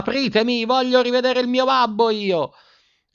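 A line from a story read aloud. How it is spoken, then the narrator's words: Screaming at top of voice. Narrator (Italian): urlando a squarciagola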